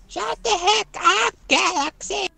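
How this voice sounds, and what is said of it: Old grandma character voice. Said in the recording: “you have a grandma voice again ... My grandma does not sound like that.”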